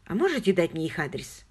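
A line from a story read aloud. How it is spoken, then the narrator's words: Plain question. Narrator (Russian): спросила Хиллари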